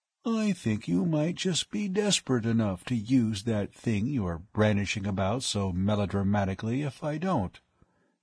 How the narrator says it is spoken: he remarked in a calm, conversational tone

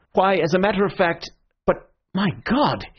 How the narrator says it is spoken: he cried out suddenly, like a man who sees an explosion a long way off

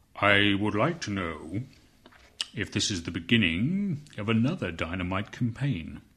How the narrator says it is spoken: he asked at once, in a deep, very smooth voice

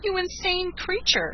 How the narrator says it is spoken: she cried

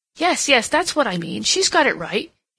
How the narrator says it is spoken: he exclaimed

